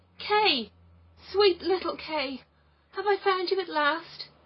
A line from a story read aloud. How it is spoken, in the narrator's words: cried out